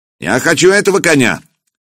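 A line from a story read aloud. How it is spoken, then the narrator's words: Ringing young voice, exclaiming. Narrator (Russian): по-хузарски воскликнул человек с уздечкой звонким молодым голосом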